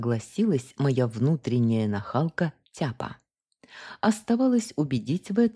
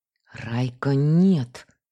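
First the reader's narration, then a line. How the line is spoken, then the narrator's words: Hoarse wheeze. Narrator (Russian): снова просипела я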